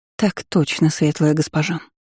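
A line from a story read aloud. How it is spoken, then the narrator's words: Young woman speaking quietly. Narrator (Russian): негромко сказала девушка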